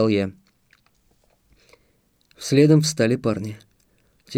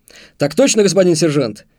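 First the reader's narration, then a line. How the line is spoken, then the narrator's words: Loud bark in unison. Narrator (Russian): В один голос гаркнули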